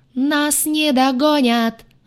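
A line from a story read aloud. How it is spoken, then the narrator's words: Howled. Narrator (Russian): взвыла я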